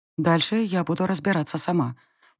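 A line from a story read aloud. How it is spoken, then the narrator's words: Quiet whisper. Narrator (Russian): тихо шепнула я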